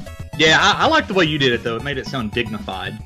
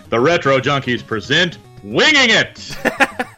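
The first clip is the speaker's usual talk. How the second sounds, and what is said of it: Booming announcer voice. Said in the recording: “announcer voice”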